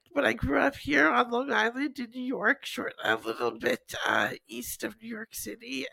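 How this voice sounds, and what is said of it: Hoarse, congested voice. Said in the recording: “A little sick... I apologize if I sound a little bit hoarse or congested.”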